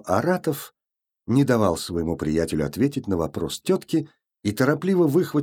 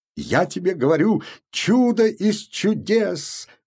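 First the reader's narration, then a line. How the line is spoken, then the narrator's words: Exclaimed. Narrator (Russian): воскликнул Купфер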